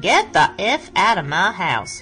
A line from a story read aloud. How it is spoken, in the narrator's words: a woman's voice in a southern accent saying